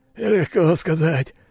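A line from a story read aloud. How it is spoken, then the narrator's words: Hoarse rasp. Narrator (Russian): прохрипел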